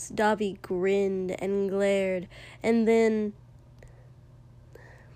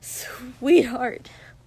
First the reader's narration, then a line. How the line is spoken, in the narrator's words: Kotsky hissed low and terrified and pleading